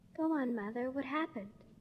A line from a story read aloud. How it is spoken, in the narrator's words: quietly and very tenderly, Grandmother, in a final act of desperation, said